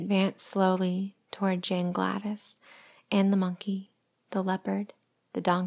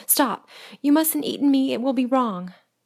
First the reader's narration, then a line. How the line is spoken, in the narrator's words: the child cried out